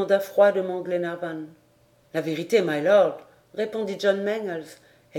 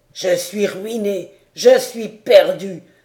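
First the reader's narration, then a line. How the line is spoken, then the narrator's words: Exclaiming. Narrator (French): s'écriait-il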